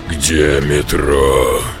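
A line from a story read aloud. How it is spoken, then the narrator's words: Growling inhuman voice. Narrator (Russian): Рычащий, нечеловеческий голос Димы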